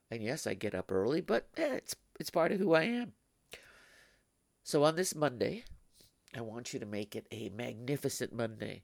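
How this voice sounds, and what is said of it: Gravelly, stuffy voice. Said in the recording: “my voice is real gravelly and stuffy, but that's what I sound like at 4 o'clock in the morning”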